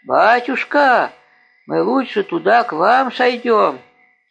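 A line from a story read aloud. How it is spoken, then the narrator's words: Loud shout downward. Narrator (Russian): громко закричал вниз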